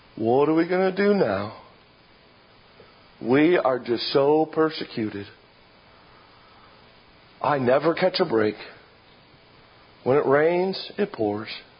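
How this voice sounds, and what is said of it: Gloomy Eeyore cartoon voice. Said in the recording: “my Eeyore impression.”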